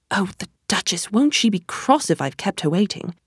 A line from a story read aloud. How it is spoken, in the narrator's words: He was muttering to himself